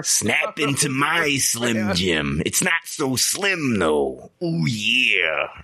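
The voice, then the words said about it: Gravelly wrestler voice impression. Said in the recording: “Macho Man ... that's a damn good impression ... It's serviceable”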